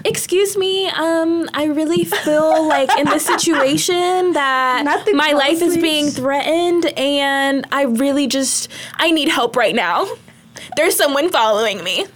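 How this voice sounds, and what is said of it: Polite customer-service voice. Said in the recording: “customer service voice”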